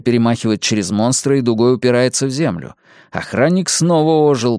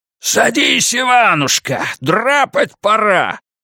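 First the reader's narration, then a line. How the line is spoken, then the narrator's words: Yelling. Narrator (Russian): вопит он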